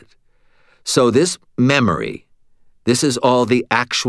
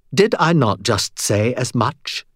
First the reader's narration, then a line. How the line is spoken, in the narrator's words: She asked crossly